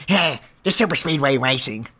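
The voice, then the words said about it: Imitates another person's voice. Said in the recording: “That was my best impression”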